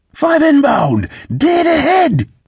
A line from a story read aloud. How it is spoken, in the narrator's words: the Allen man shouted